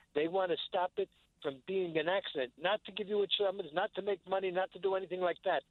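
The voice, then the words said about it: New York accent. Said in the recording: “You're a New Yorker. I could hear it in your accent.”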